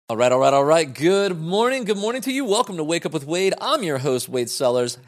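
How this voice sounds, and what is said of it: Energetic, enthusiastic speaking voice. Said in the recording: “this energy you hear in my voice ... I tend to talk about things enthusiastically ... the inflection and energy in my voice”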